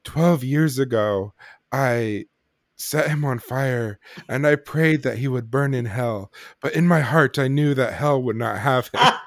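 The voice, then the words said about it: Melodramatic Dr. Loomis impression. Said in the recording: “great Loomis impersonation ... Donald Pleasence ... melodramatic ... feign melodrama”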